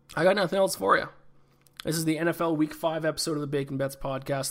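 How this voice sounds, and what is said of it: Hoarse, fading voice from illness. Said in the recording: “I'm still high on cold medicine. I'm losing my voice. ... survive this flu”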